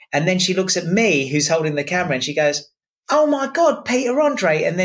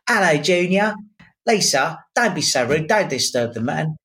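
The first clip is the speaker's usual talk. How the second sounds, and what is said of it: Put-on accent imitating a woman. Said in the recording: “I don't know if I did the accent right.”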